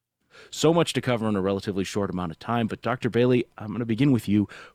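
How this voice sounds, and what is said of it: Voice sounds different, like a cold. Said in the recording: “I had a bit of a cold when I spoke with them, so my voice sounds a little different”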